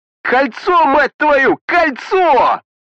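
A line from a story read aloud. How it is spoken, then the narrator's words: Navigator yelling. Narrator (Russian): заорал навигатор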